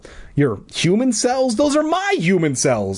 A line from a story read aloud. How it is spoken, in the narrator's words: I cried